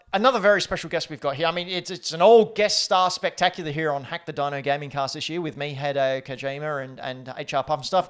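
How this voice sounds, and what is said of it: Put-on Australian accent. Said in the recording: “That Australian accent just gets better and better.”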